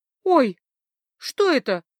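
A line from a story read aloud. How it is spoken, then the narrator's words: Frightened squeak, female. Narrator (Russian): испуганно пискнула та, кого называли Джуллинар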